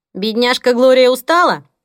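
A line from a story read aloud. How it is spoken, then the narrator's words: Mocking shout from afar. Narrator (Russian): насмешливо крикнула Дейзи из кухни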